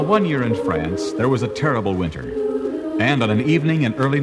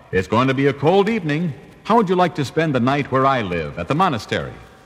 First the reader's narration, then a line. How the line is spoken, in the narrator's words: smiled at him and called out